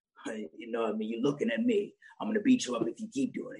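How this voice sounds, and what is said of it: Jason Statham impression. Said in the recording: “I do a Jason Statham impression.”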